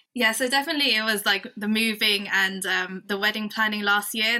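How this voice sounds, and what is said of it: Non-Canadian accent. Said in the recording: “accent gave her away a little bit, not being Canadian”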